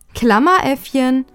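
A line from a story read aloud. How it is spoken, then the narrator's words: Laughing. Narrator (German): hatte Lea noch lachend hinzugefügt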